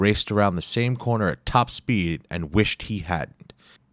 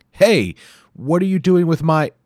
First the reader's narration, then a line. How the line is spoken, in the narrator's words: a voice yelling